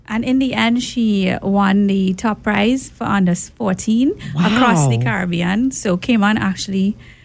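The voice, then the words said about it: Trinidadian accent. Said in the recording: “my accent is Trinidadian.”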